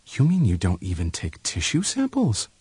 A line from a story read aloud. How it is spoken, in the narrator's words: his voice was still calm when he answered